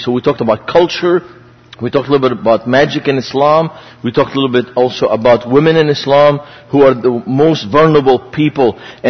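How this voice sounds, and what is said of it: Lebanese-accented English. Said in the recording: “So this is the city I grew up in. That's why I have an accent... I might have a double accent now... Grew up uh, in Beirut”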